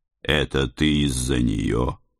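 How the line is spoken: Quiet question. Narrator (Russian): тихо спросил я

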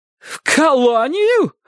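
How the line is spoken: Aunt's startled cry. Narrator (Russian): вскрикнула тетушка

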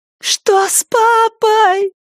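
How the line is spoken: Shrill thin child's scream. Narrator (Russian): пронзительно закричала Рэйчел тоненьким, как травинка, голосом

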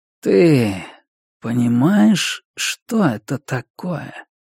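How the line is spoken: Quiet. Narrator (Russian): Хедрон тихо произнес

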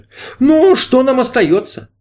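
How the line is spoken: Respectful grunt. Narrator (Russian): Мистер Герой уважительно хмыкнул

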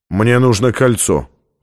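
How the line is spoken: Cold. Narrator (Russian): холодно сказал он

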